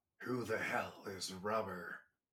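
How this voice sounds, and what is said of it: Imitates a movie character's voice. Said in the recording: “my Bucky Winter Soldier impression”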